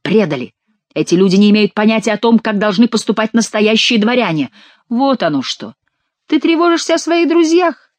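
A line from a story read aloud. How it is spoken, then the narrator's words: Exclaimed. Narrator (Russian): воскликнул Шико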